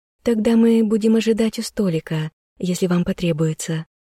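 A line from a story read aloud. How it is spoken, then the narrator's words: Maid's timid smiling speech. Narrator (Russian): робко улыбнулась служанка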